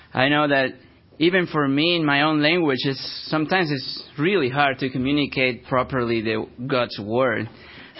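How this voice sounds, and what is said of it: Thick non-native English accent. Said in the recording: “my accent is so thick ... not going to pronounce the name of the city, of the names of the characters ... like an American person”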